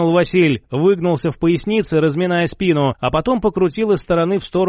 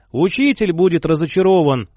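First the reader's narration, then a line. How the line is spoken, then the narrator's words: Sighing. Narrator (Russian): вздохнул мой бывший одноклассник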